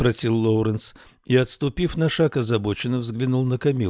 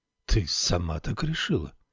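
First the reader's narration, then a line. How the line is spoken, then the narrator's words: Deliberately calm. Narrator (Russian): осведомился он нарочито спокойным голосом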